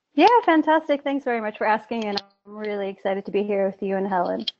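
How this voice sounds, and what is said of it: Slight foreign accent. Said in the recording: “I can already detect a bit of an accent there”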